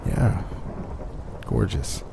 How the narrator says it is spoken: I mumbled

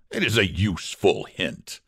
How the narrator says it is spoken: said Ulrich fiercely

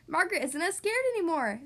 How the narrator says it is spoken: said Daniel happily

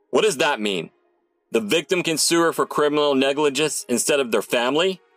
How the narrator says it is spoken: The dean roared

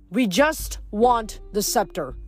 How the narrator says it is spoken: Nico shouted

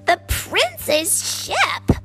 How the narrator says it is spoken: Grisella screeched

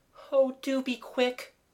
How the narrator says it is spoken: moaned Kathleen

